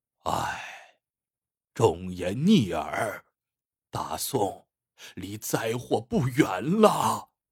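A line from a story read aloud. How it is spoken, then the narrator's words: Old man's long sigh. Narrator (Chinese): 老将军仰天长叹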